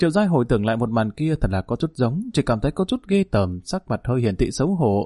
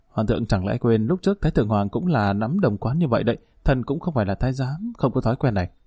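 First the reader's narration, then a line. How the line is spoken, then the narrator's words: Quiet murmur. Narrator (Vietnamese): nhỏ giọng nói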